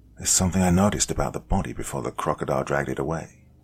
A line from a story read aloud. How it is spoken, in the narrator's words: he said to me quietly